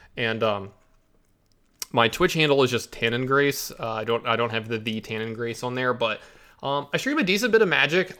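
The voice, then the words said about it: Congested, stuffy-nosed voice. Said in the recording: “I know I sound weird. ... got a little congestion going on from sneezing. My allergies are acting up.”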